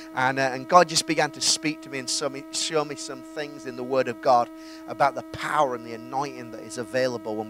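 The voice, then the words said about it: Yorkshire English accent. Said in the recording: “my wonderful Yorkshire accent”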